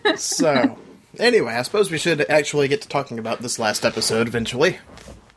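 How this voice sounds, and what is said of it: Voice affected by a cold. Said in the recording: “I have a cold, by the way. Sorry for my voice.”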